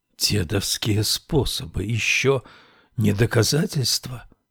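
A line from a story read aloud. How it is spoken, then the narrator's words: Whisper. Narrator (Russian): прошептал Саймон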